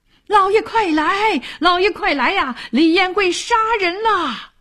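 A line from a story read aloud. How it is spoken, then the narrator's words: Shouting. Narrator (Chinese): 抱住自己的那人高喊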